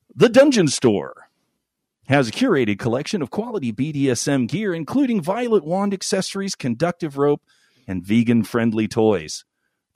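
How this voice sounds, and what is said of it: Severe radio announcer voice. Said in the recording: “my my severe radio voice”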